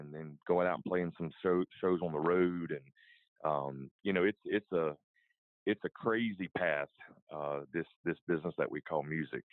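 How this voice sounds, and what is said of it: American country accent. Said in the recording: “I'm I'm country, as you can tell ... People say I have an accent ... "Wow, you sure are country,"”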